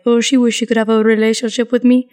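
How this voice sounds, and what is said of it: Antonio impression. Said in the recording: “that your Antonio impression? ... that's my Antonio impersonation”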